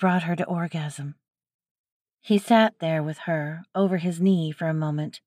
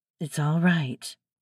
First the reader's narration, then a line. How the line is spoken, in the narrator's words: he said in a soothing voice